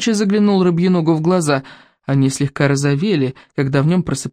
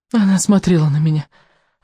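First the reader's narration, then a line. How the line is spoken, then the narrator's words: Sigh. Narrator (Russian): вздохнул рыбьенок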